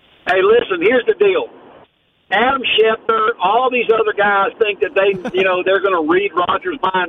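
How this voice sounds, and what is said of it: Regional American accent. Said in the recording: “love your accent”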